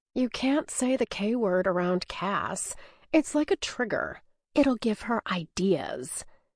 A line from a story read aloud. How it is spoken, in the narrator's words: She sneers and murmurs